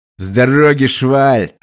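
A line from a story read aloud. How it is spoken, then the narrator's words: Barking shout. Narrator (Russian): рявкнул я на него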